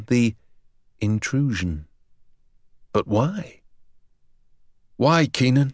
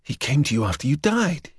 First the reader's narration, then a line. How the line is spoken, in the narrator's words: he gasped